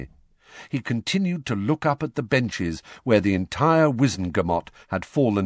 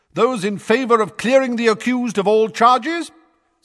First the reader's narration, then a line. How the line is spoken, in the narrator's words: said Madam Bones's booming voice